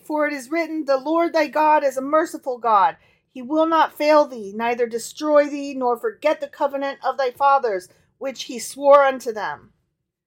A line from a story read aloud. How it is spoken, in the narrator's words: cried the boy